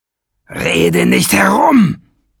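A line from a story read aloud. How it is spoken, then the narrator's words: Roared. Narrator (German): brüllte Nesselbrand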